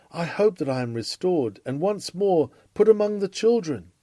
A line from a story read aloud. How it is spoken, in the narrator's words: Further on, he even cries